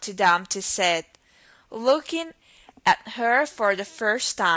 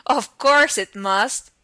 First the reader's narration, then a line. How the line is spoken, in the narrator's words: Humpty Dumpty said with a short laugh